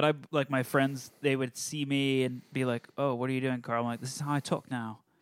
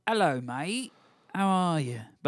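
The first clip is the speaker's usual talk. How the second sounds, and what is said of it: Put-on British accent. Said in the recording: “I'm going to go with the British accent.”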